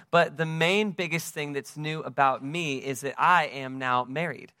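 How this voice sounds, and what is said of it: American accent. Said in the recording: “I am from the United States, as you can tell from my accent.”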